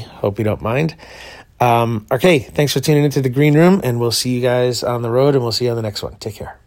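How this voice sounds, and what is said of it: Froggy, rough morning voice. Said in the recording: “my voice is a little froggy.”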